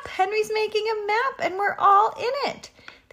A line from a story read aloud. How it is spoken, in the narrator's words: They exclaimed